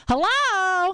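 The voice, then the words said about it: Imitates another person's singing voice. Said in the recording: “my impression of Jerry Lewis singing Adele.”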